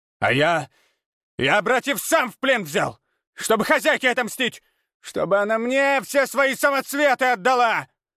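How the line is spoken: Panicked shout. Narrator (Russian): В панике крикнул Абурицы

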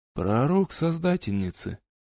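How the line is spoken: Very solemn. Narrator (Russian): весьма торжественно заявил король

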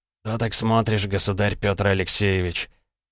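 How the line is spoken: Hoarse smoker's voice. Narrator (Russian): Голос был хриплый, прокуренный

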